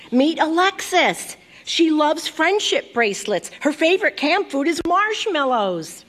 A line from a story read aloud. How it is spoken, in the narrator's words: my mom shouted